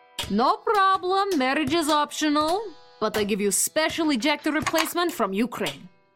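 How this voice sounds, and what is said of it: Eastern European Romanian accent. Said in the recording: “I thought you were Russian. ... my perfect regional dialect? I'm Romanian”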